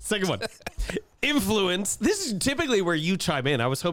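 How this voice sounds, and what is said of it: Usual voice. Nothing is said of it.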